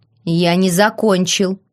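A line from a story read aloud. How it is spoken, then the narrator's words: King's growl. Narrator (Russian): рыкнул король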